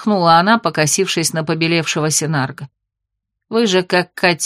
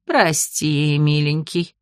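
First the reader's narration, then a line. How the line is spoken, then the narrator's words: Tender cooing. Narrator (Russian): нежно проворковала ему Мильда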